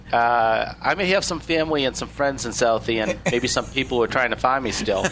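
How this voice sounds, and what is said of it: Boston accent. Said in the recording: “You're from Nashville, but you sound like you're from Boston, maybe from Southie.”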